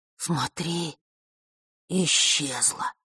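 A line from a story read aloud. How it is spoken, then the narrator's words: Admiring whisper. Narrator (Russian): восхищенно прошептал Лешка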